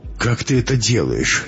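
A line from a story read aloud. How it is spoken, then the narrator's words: Tearful question. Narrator (Russian): сквозь слезы спросила Анна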